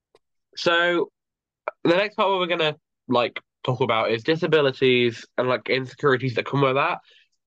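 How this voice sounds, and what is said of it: Congested voice from a cold. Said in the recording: “I have a cold. So, my voice might be a bit weird.”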